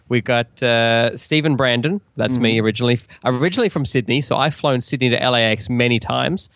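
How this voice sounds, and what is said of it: Mixed Australian-American accent. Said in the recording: “I have my quasi-Australian, quasi-American accent ... He's the upbeat Australian one”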